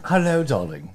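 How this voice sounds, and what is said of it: Put-on British accent. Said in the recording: “We could do the whole show in a British accent.”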